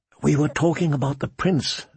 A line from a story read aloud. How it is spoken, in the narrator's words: Sansa said, her voice soft as a kiss